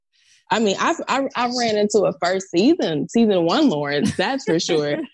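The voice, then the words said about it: Mississippi Southern accent. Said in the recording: “You're from Mississippi ... I love your accent. It's so beautiful.”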